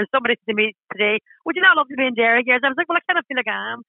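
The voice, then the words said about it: Strong Derry Northern Irish accent. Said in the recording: “I'm very proud of my Derry accent. and it's getting stronger as you get older”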